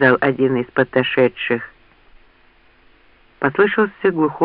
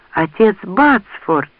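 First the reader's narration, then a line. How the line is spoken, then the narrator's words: Joyful exclamation. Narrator (Russian): радостно воскликнула Лианна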